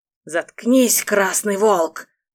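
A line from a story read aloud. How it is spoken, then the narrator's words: Hissed by a thug. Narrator (Russian): прошипел второй головорез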